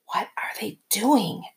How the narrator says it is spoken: Esther whispered

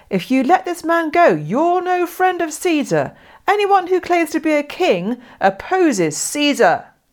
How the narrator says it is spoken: the Jews kept shouting

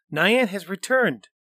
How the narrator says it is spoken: Xing Ling cried

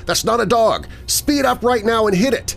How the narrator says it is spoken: Travis starts yelling back over the radio

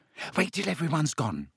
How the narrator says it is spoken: said Hermione nervously

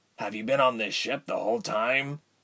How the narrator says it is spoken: he asked quietly

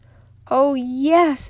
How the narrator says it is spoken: exclaimed Midas

